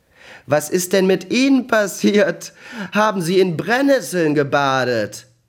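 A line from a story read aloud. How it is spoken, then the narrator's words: Grinning, laughing. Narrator (German): fing er an, hemmungslos zu lachen und sagte grinsend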